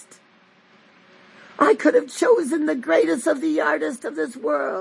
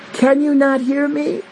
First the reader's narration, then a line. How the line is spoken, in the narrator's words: Abraham cries for the children of Ishmael